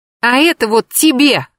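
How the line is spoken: Shout. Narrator (Russian): крикнула Даша

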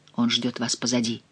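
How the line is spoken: Barely audible. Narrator (Russian): едва слышно сказал ей Реми

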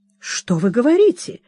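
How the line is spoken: Amazed, cheerful. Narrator (Russian): изумился мистер Скимпл, радостно улыбаясь

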